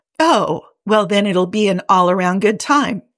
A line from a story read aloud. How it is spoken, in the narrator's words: he says cheerfully